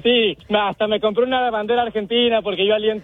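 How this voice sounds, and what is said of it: Chihuahuan accent drifting toward Argentine. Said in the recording (Spanish): “ya se le está cambiando el acento. ... Tu acento chihuahuense se te está yendo para un lado, compadre. Estás escuchándote como argentino.”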